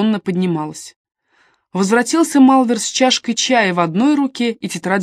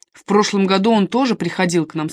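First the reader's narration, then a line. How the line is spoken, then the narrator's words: Plain. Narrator (Russian): сказал он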